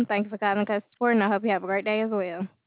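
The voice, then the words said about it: Southern American accent. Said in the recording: “Your accent just sound like you're from the South”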